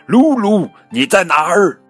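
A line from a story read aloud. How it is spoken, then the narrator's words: Loud calling, mother. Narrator (Chinese): 妈妈大声喊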